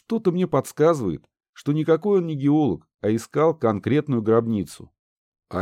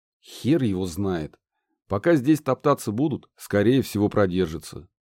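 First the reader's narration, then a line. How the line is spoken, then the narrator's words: Plain. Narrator (Russian): ответил Гедеон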